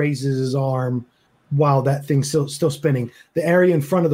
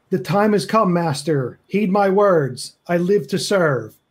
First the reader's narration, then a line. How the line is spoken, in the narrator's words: Higgins scream